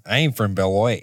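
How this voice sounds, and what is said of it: Put-on Wisconsin accent. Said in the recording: “whenever I have to snap into a Wisconsin accent, I use this town name.”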